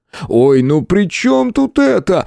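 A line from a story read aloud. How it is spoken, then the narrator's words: Wailing yell. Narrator (Russian): завопил он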